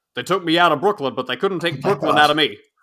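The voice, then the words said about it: Imitates another person's voice. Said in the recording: “should I try to do the Larry King impersonation?”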